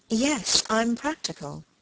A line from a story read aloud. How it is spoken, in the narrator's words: she murmured